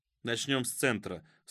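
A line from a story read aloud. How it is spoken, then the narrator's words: Curt dry retort. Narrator (Russian): сухо отрезал Фишер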